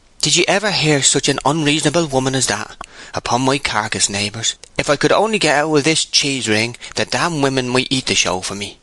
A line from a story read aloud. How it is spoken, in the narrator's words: said Coggan, appealing in an earnest voice to the public at large